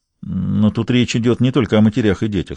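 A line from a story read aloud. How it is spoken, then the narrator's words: Plain. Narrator (Russian): сказал Гамаш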